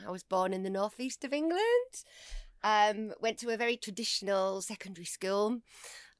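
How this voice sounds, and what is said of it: Strong northern English accent. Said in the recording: “my very strong northern accent, I'm not a traditional Londoner”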